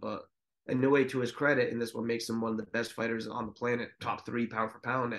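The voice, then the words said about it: Strained, hoarse voice giving out. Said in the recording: “Jesus, I'm losing my voice over here. ... cold winter air, boy.”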